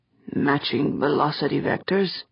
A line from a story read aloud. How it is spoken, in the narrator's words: Doran muttered